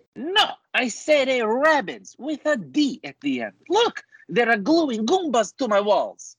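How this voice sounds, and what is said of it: Put-on accent, character voice. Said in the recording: “with the accent.”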